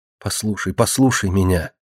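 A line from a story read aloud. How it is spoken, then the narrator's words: Pleading whisper. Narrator (Russian): Марина умоляюще зашептала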